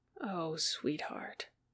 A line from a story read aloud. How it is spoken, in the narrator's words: Peter murmured sweetly